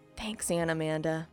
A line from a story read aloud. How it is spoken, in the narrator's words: Claire whispered